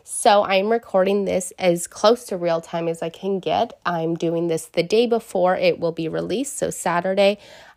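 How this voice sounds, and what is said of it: Raspy, partly lost voice. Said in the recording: “losing my voice once again ... it's just like raspy”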